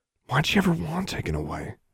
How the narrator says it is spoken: Alexandra muttered to Anna

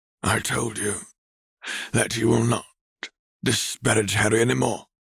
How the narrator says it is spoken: he growled warningly

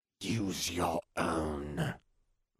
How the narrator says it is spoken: Voldemort hissed

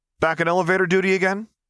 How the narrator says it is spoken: he called out, taking care not to raise his voice too much

